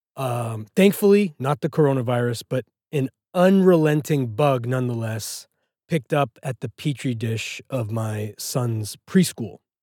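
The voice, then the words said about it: Sick-sounding voice. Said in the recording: “I got sick. ... can probably tell from my voice.”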